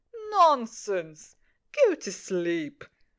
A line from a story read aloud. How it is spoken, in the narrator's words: laughed Daddy